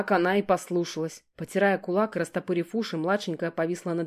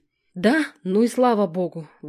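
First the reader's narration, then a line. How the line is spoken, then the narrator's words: Frightened exhale. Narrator (Russian): выдохнул Гена ... с перепугу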